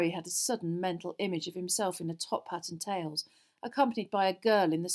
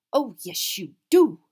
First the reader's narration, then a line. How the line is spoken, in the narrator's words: said Professor McGonagall irritably